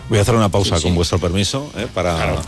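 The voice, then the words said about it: Very serious, formal interviewer tone. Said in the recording (Spanish): “estás poniendo voz muy seria todo el rato ... ¿Qué tono es este? ... Es un tono de respeto. ... Es un tono como si estuviéramos entrevistando.”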